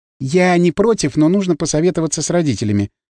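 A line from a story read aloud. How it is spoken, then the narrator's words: Plain. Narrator (Russian): сказала Белохвостикова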